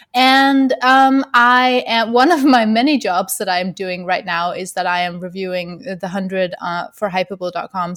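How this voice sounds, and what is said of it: Danish accent, slightly odd speech. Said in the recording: “I am from Denmark, which is one part of the reason why you're like, what's her accent? It's so weird. ... I have a wisdom tooth infection. So, like, both of those things are, like, equally contributing to my weird speech.”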